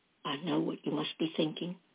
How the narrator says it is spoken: Dory said softly

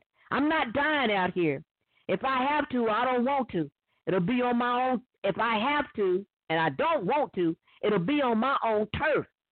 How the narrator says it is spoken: shouted

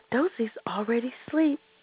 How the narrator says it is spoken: Rosie whispered

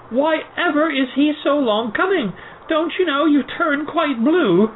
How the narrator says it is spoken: Suddenly they both cried out at once

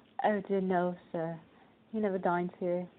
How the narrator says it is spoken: replied the butler

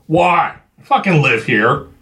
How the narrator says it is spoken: Chuck barked

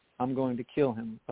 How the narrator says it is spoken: O'Ballin said softly

